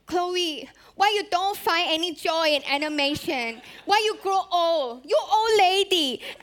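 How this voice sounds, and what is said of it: Imitated strong Singaporean accent. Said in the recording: “my dad has a very strong Singaporean accent. And the way he teased me, he would be like”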